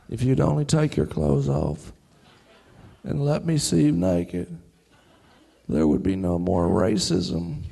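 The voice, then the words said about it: Bill Clinton impression. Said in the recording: “he doesn't do a good Bill Clinton impression”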